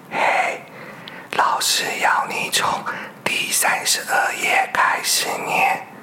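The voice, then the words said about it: Quiet, hushed voice. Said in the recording (Chinese): “小声的说”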